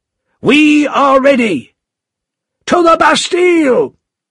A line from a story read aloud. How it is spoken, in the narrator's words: shouted Defarge